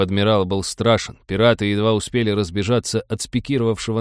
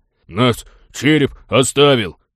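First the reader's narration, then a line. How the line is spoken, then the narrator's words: Fearless deep-voiced little mouse. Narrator (Russian): с бесстрашием честного человека пробасил мышонок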